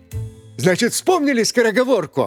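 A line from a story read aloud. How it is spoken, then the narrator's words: Joyful question. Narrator (Russian): радостно спросил твердый знак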